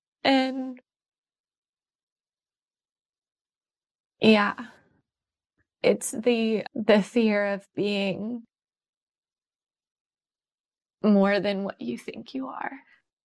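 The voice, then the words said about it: Choked-up, tearful voice. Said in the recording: “Why do I get choked up? ... Why do the tears come?”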